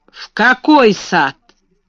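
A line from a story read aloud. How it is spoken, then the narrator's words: Rude question. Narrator (Russian): спросил он грубо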